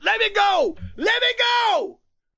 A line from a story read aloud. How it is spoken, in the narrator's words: The man screamed